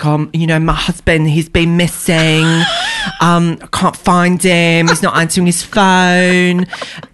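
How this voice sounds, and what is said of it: Put-on Essex accent. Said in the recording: “That's just a great Essex accent.”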